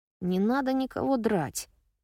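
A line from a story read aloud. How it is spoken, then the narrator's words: Grumbling. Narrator (Russian): пробурчала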